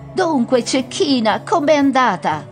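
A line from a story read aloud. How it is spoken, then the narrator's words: Full-throated shout. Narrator (Italian): le gridò a piena gola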